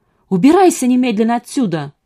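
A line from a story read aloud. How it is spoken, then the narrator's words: Shouted. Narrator (Russian): крикнула она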